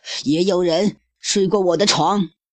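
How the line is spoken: Roaring. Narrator (Chinese): 熊妈妈也咆哮道

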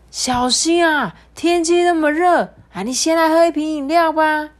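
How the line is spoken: Loud, from afar. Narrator (Chinese): 远远的，我听到这个杂货店的老板大声的说

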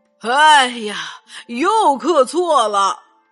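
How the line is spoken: Sighing. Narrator (Chinese): 他叹了口气说

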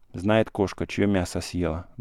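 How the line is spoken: Muttered. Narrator (Russian): бормотал Савка

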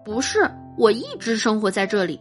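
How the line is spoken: Smiling. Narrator (Chinese): 我笑着问

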